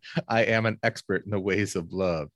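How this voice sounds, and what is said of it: Impression of Leon Phelps. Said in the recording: “Leon. ... My name is Leon Phelps”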